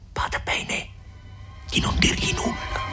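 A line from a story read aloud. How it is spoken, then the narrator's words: Hurried whisper in ear. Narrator (Italian): Agnese ebbe appena il tempo di sussurrare all'orecchio di Lucia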